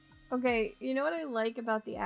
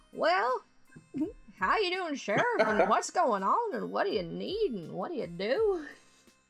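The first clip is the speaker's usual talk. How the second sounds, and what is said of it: Put-on small-town accent. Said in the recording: “the accents... supposed to be small town, like the little general store... only a couple people in town have an accent”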